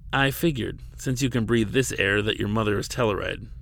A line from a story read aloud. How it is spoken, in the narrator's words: she said, almost laughing